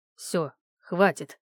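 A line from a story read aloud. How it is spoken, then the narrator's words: Sudden clipped mutter. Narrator (Russian): процедил вдруг Вадим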